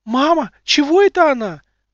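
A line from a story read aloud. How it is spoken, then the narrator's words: Frightened child exclaiming. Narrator (Russian): воскликнула испуганно девочка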